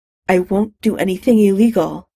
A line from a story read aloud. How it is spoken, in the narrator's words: she said in a tight voice